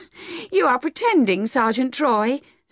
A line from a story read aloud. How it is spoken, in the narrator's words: said laughing in spite of herself at his clever way of talking